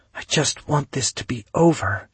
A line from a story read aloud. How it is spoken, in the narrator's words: she whispered